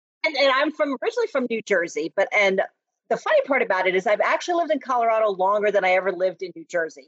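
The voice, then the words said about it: New Jersey accent. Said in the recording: “I think you can tell from my accent that I am not from Colorado. ... I think you talk funny”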